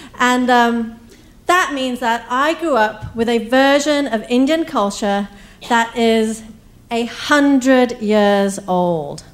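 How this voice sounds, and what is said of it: English accent. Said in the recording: “England, where I got my accent”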